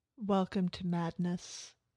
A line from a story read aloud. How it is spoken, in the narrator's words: Sophie says, her voice strangely flat